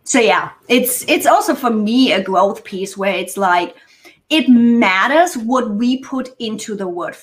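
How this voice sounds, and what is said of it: Speaks English with a foreign accent. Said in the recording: “especially with my accent”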